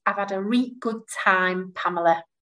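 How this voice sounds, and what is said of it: Yorkshire accent. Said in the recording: “I'm going to answer in a Yorkshire dialect ... That was just my accent ... I love that accent”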